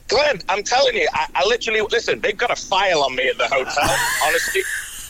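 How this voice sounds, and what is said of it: British accent. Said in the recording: “it sounds even more authoritative coming from a fine British accent”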